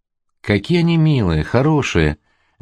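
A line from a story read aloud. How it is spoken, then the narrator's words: Plain. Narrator (Russian): говорит Ирина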